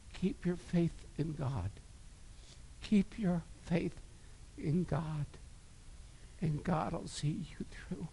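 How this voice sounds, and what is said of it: Emotional, choked-up preaching voice. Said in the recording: “I got a little emotional today”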